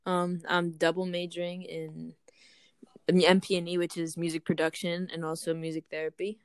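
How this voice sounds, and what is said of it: Slight New York accent. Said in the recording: “I could kind of hear an accent”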